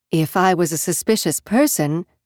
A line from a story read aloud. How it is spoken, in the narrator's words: she said again